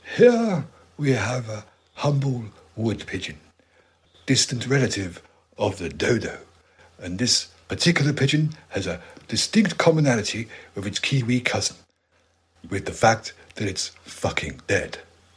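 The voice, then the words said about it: Imitates a nature documentary narrator. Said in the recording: “Worse than my David Attenborough? ... David Attenborough wouldn't swear.”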